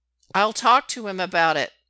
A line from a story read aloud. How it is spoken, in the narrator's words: Derek says loudly, interrupting his uncle